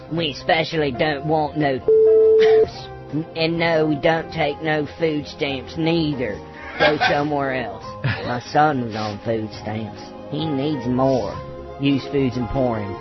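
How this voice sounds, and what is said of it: Put-on Southern accent character voice. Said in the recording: “his southern accent wasn't. Real. ... It was barely disguised.”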